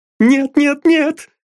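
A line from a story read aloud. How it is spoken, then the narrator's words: Angry sobbing. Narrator (Russian): всхлипывала она, гневно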